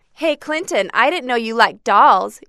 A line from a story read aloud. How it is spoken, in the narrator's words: yelled a boy